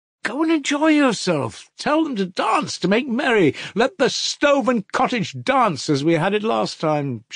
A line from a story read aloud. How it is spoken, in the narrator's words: she kept exclaiming